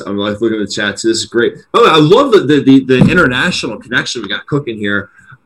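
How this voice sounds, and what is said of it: Philadelphia accent. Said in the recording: “our accents ... as Philadelphians”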